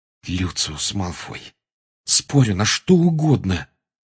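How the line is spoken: Quiet and furious. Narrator (Russian): тихо и с яростью проговорил Гарри

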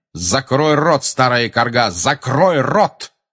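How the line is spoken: Barking. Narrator (Russian): рявкнул он

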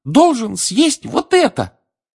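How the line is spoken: Squeaky elf voice. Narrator (Russian): пискнул эльф

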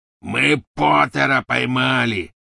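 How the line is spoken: Triumphant roar. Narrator (Russian): победно проревел Сивый

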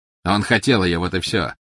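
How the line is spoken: Mocking. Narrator (Russian): насмешливо сказал Волан-де-Морт

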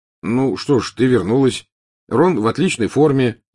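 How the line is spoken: Plain. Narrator (Russian): сказал Гарри

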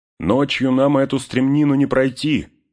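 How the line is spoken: Shout. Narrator (Russian): крикнул Барамир

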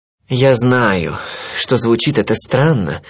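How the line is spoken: Sigh. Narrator (Russian): вздохнул

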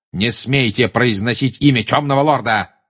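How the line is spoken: Barking. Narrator (Russian): рявкнул Снег

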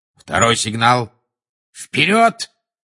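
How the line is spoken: Barked. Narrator (Russian): рявкнул Люпин

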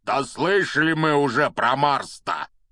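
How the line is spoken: Angry grumble. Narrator (Russian): сердито проворчал Хагрид

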